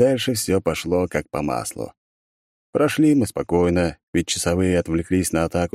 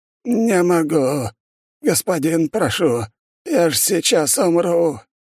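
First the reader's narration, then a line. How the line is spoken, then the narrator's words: Old man wheezing. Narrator (Russian): хрипел старик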